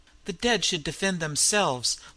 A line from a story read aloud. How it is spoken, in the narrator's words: laughed L'Armand